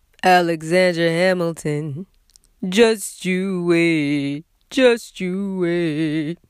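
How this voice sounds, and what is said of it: Impression of a musical theatre character. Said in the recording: “my Hamilton impression”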